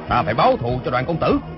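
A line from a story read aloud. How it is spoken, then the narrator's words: Grieving angry shout. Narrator (Vietnamese): Phó Tư Quy, vừa đau lòng vừa tức tối, quát lớn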